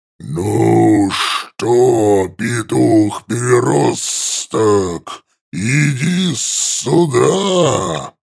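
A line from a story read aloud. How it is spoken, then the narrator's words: Hissing. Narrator (Russian): Прошипел я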